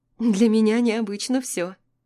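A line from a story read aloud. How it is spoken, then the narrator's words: Giggling. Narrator (Russian): хихикаю я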